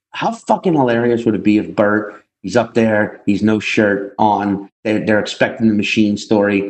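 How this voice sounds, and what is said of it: Usual voice. Nothing is said of it.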